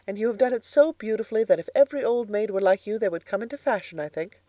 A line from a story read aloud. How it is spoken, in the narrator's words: laughed Anne